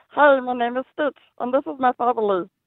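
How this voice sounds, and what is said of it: Cartoon character voice, Stitch. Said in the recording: “I can do a Stitch voice.”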